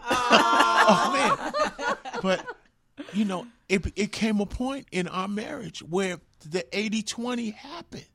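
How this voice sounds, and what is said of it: Emotional, choked-up voice. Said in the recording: “I'm getting emotional.”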